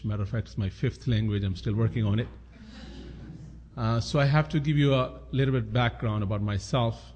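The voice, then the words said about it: Non-native English accent. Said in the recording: “You probably figured it out by my accent that English is not my native language.”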